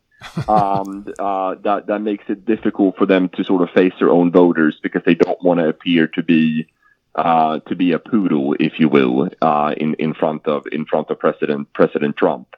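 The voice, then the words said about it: European Swedish accent, sounds Dutch. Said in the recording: “your European accent ... Are you Dutch? ... Originally from Sweden ... you kind of sound like a guy in a Heineken beer commercial”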